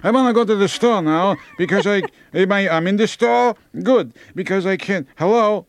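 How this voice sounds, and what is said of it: Put-on old Jewish accent. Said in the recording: “everyone, when they get old... they have a Jewish accent... they get a Jewish accent”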